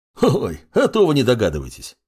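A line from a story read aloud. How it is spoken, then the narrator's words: Chuckling. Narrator (Russian): хохотнул незнакомец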